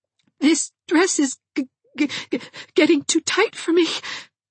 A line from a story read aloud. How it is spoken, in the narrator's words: sobbed